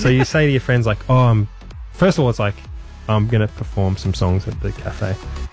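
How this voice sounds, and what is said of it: Australian accent. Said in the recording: “obviously that's an Australian accent.”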